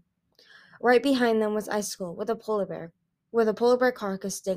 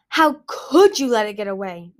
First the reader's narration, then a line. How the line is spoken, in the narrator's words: Narwhal roared